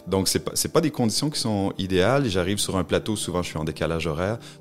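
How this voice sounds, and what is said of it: Noticeable non-French accent. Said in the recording (French): “j'ai un accent, donc euh, c'est ce que les gens remarquent en premier quand, quand, quand je me mets à parler”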